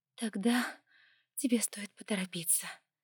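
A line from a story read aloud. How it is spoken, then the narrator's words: Weak voice, objecting. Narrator (Russian): слабым голосом возразила она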